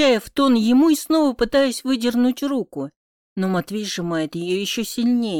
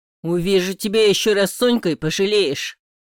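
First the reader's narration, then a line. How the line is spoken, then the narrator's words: Cold, deliberate words. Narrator (Russian): Холодно выговаривает каждое слово Матвей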